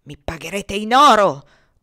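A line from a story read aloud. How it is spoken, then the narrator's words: Thunderous booming voice. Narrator (Italian): tuonava Pollock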